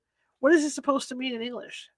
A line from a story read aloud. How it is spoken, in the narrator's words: I said